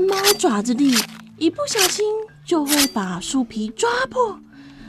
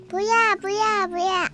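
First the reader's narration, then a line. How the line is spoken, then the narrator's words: Many voices shouting. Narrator (Chinese): 所有的小棕树……呼呼叫着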